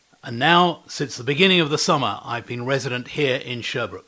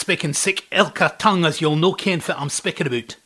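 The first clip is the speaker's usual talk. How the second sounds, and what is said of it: Put-on Scottish accent, rolled R's. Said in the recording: “They have a distinct regional accent there which I never picked up. But if you really want to, I can roll my R's”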